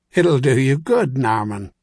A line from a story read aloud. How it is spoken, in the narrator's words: Caleb replied with a chuckle